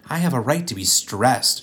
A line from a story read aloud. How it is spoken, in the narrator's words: she snapped at them